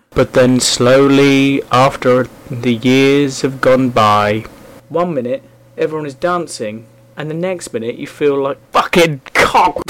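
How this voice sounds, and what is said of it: Terrible mixed northern English accent. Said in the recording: “my terrible accent there. All 10 million different northern ones.”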